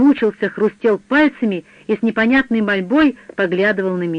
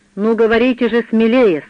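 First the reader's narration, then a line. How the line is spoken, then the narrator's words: Stern. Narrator (Russian): строго сказал я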